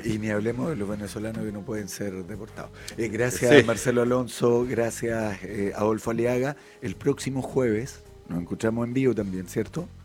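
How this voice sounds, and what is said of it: Deep, rough ailing voice. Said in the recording (Spanish): “ojalá tu voz esté mejor, ya porque estás como una voz de FM ... tenía una voz de hombre.”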